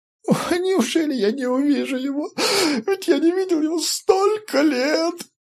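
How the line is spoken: Nonstop sobbing. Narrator (Russian): Файтви всхлипывал безостановочно

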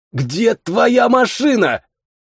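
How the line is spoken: Hoarse rasp. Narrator (Russian): прохрипел

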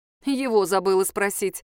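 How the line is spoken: Scornful snort. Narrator (Russian): фыркнула Надежда

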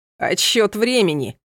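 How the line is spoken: Laughing. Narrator (Russian): засмеялся Рамаль

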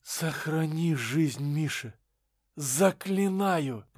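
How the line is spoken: Hoarse woman's rasp. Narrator (Russian): прохрипела мать, жена и просто женщина

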